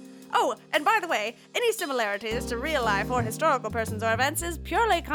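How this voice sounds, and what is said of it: Usual voice. Nothing is said of it.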